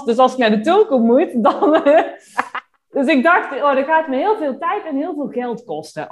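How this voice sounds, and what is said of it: Slight Brabant Dutch accent. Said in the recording (Dutch): “voor de luisteraar misschien hoor je het wel een klein beetje een accent. ... in Brabant”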